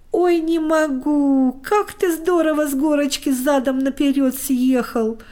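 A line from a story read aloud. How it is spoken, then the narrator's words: Laughing. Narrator (Russian): хохотал Костик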